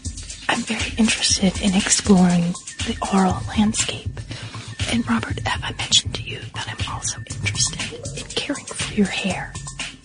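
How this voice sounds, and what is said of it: Soft, measured whispering. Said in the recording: “You sound very measured this morning ... It's a bit of whispering”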